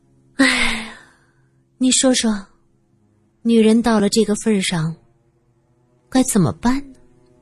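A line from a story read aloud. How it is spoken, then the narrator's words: Sighing woman. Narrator (Chinese): 金女士叹了口气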